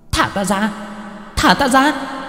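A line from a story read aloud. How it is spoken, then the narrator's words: Shrieking spirit. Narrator (Vietnamese): Hồn phách của ả rít lên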